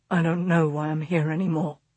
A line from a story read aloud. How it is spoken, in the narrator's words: he mumbled